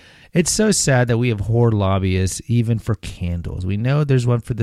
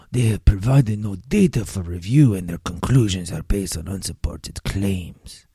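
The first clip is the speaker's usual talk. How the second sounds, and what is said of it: Bad put-on French accent. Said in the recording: “let me do my really bad French accent.”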